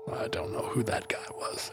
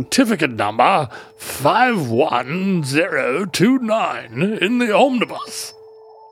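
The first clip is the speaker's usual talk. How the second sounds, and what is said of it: Increasingly posh put-on British accent. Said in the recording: “Do it in a British accent... His accent got stricter as time went on... he grew a monocle in the middle of the second sentence.”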